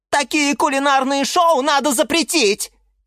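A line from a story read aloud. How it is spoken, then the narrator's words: Shouting. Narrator (Russian): кричала Розмарин Марина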